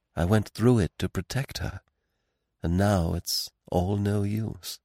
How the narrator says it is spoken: He smiled mournfully at Poirot, and said in a low voice

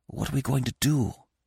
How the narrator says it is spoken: I whispered

